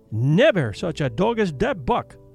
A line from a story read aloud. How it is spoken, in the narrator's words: he cried